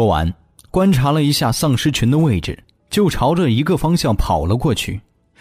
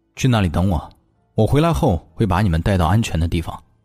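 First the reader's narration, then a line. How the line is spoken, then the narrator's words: Low, deep voice. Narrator (Chinese): 他沉声道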